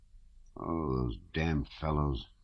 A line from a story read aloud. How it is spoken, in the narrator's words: muttered the officer, holding his nose as he ran